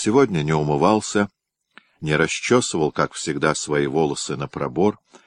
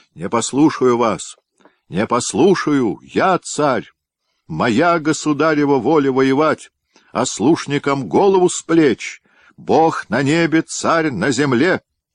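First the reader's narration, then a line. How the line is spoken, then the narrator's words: Shouting. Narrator (Russian): Иван Васильевич кричал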